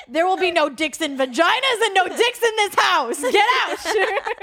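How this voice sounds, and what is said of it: Stern mom voice. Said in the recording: “I like using my mom voice... that was a whole different person right there”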